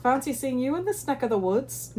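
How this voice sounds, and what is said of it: Bad attempt at Scottish accent. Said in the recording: “in his Scottish accent ... I don't have a Scottish accent ... See, that was bad.”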